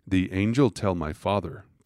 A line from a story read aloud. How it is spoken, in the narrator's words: Promi replied